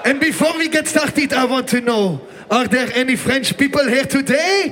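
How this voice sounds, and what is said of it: Speaker's own non-native accent. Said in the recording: “sorry for my accent”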